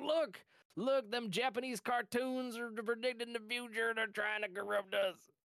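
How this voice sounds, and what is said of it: Mock average American accent. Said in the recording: “your accent of that ... that's like the average American”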